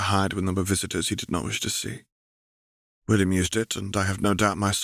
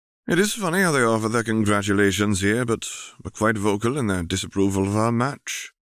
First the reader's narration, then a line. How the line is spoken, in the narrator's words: Charles sighed irritably